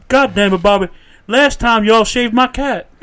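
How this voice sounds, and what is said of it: Hank Hill impression. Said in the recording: “He almost sounds like Hank Hill... a really good impression of Hank Hill”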